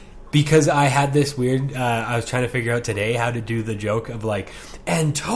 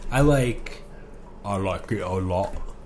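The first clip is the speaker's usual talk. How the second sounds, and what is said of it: Imitates a Dumb and Dumber character. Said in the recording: “do a Dumb and Dumber impression?”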